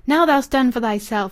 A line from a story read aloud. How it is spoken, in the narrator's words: he cried in the dialect